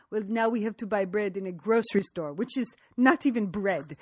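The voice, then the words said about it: Put-on French accent. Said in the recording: “Nice French accent.”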